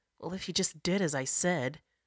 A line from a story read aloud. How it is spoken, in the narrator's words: Jasira muttered